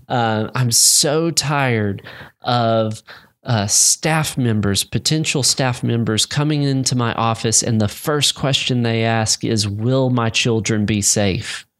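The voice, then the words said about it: Imitates another person's voice. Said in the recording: “This is my John Piper impression. I'm doing my arms everywhere.”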